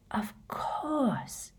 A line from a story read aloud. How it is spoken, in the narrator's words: she breathed